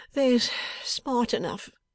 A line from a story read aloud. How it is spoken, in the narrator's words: whimpered Mr